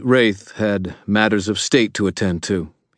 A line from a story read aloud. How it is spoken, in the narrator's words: he said, his voice steady